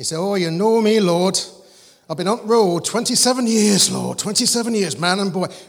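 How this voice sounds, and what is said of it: Put-on Yorkshire accent. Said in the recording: “used to pray in a Yorkshire accent ... Why is he speaking in a Yorkshire accent?”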